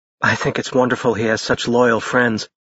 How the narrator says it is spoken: Josie said softly

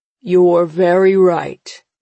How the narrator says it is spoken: Father says, his voice a deep rumble that puts an old fear in my heart

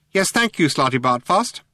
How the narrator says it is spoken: said Benji Mouse sharply

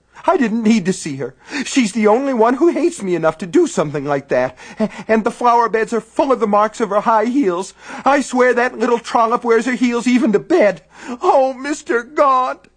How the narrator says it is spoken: she wailed

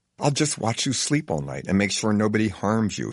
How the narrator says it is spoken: he says tenderly

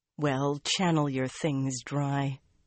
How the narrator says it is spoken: Theodrin muttered

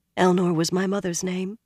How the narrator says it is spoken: she said softly

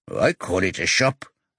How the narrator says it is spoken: he mutters

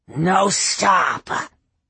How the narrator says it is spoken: Pack Leader snarled

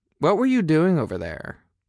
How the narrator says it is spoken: I asked him

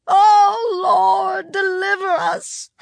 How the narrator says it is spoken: Their mother screamed

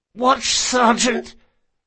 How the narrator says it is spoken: Bug hissed thickly, letting more blood spill out over his lips

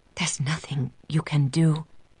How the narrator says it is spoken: she whispers

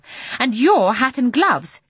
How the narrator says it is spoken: she snapped

